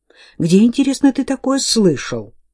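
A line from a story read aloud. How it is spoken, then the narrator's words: Sharp. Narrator (Russian): резко спросила герцогиня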